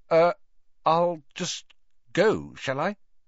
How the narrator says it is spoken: stammered

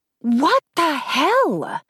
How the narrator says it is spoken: She whispered yelled

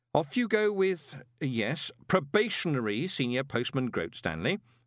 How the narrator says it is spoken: said Moist, as kindly as he could manage

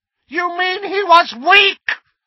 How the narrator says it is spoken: screamed Voldemort

